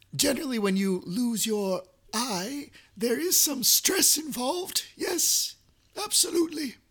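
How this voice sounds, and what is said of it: Strained, failing voice. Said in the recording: “I'm about to lose my voice. ... It's really hard.”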